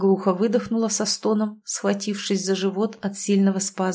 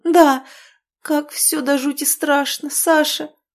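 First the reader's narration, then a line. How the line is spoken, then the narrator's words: Faltering babble. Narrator (Russian): пролепетала она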